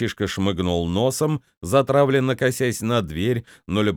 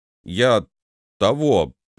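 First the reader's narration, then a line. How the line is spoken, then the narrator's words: Boy mumbling. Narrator (Russian): пробормотал мальчишка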